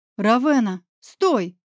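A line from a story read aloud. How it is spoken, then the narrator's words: Sharp barked shout. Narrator (Russian): рявкнула Медуза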